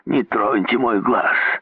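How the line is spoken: Growled. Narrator (Russian): зарычал депутат от Вошбизона

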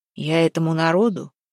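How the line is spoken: Grim threat. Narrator (Russian): мрачно пригрозил Куприян

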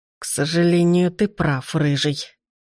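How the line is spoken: Through clenched teeth. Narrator (Russian): сквозь стиснутые зубы процедил незнакомец

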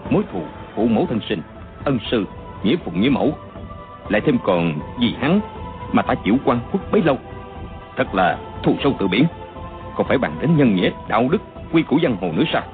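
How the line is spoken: Soft, venomous, resolute. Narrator (Vietnamese): chàng chỉ nói khẽ nhưng đầy oán độc, tưởng như chém đinh chặt sắt không bằng

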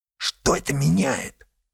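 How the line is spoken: Shrill whispered squeal. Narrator (Russian): Шепотом взвизгнул Ельцов

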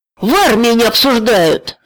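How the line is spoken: Shout. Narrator (Russian): закричал Геша

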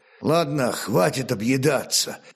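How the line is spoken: Grumbling. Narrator (Russian): проворчал полусотник

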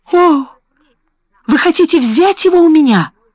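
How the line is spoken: Tearful trembling exclamation. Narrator (Russian): воскликнула со слезами на глазах и дрожащим голосом

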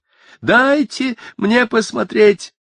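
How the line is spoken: Shouting. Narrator (Russian): закричала Мэг

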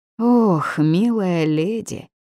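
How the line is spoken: Unexpectedly resonant voice. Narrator (Russian): произнес неожиданно звучным голосом

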